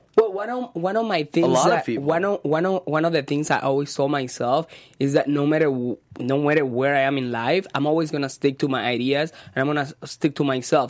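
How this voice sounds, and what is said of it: Latino accent, loud voice. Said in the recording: “you have a Latino accent, you're very loud”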